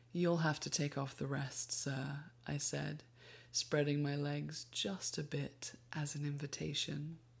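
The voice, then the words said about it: Woman reading with an accent. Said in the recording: “We love your accent in these moments.”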